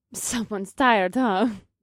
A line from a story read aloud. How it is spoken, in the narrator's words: Gus chuckled